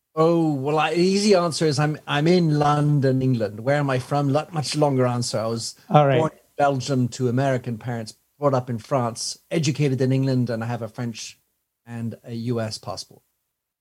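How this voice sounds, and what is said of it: Slight non-American accent. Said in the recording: “for my American listeners, a little bit of an accent there”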